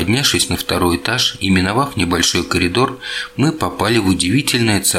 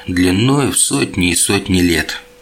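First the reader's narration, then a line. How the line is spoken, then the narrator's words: Heavy sigh. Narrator (Russian): тяжело вздохнул вампир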